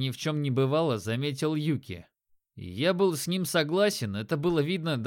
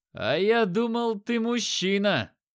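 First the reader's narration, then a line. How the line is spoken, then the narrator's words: Loud shout. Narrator (Russian): громко крикнул я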